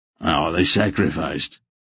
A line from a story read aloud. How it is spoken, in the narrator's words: Durnik asked in a subdued voice